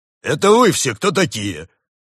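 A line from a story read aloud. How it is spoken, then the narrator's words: Indignant deep bass, bear. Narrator (Russian): возмущенно пробасил медведь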